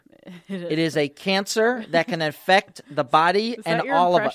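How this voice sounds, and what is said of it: Mock-serious movie scientist voice. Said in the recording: “that your impression of Joe? ... a scientist kind of guy or somebody like speaking out about this thing at the end of a movie”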